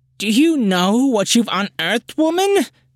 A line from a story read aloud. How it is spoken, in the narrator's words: a voice from beyond the door cried